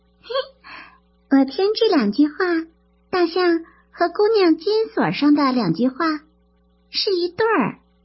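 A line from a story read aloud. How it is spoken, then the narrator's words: Giggling. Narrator (Chinese): 听了嘻嘻的笑着说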